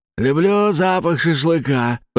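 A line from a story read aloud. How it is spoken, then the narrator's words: Gunner's hoarse wheeze. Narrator (Russian): прохрипел огневик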